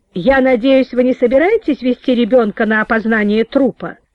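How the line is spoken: Stern menacing question. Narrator (Russian): грозно спросила Надежда Павловна

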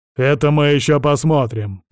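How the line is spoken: Grumbling mutter. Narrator (Russian): пробурчал Силантьев

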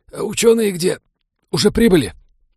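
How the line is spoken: Strained, hoarse wheeze. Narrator (Russian): Станислав покашлял безуспешно и сдавленно прохрипел

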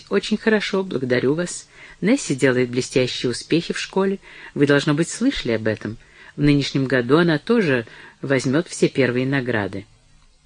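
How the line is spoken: Forced calm reply. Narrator (Russian): Броуди заставил себя спокойно ответить

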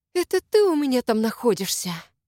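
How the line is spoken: Hissed. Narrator (Russian): Зашипела

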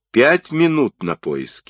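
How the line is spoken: Stern warning from boss. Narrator (Russian): строго предупредил главный

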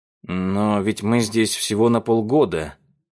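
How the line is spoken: Moan. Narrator (Russian): простонал Руслан

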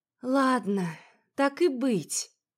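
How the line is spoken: Resigned sigh. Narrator (Russian): вздохнула я, признавая свое поражение

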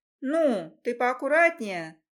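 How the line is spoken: Indignant. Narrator (Russian): Возмущаюсь я

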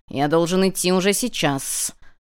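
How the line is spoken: Stubborn nervous hiss. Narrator (Russian): упрямо прошипел Локи, нервно подметая пол хвостом

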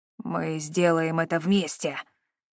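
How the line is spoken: Determined growl. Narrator (Russian): решительно рыкнул

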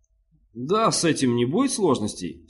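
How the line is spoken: Forced confident cheer. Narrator (Russian): сказал Денклар, заставляя свой голос звучать уверенно и радостно

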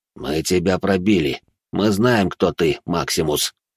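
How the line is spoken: Through clenched teeth. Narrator (Russian): процедил управляющий

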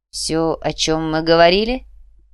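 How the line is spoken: Said loudly. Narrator (Russian): громко произнес Мао

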